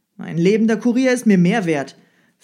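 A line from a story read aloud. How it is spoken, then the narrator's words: Sharp retort. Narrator (German): versetzte der Zar scharf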